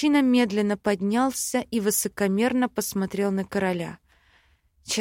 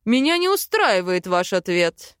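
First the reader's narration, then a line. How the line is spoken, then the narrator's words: Cold, clipped words. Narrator (Russian): Холодно отчеканил Айкельд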